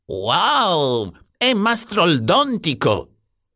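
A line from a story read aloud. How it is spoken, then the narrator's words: Exclaimed. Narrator (Italian): esclamò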